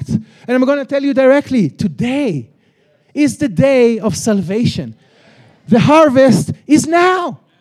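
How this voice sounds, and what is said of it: Israeli accent. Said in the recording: “this guy with this accent from Jerusalem”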